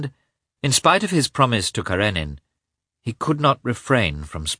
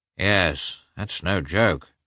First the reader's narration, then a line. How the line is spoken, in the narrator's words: said Oblonsky, looking sadly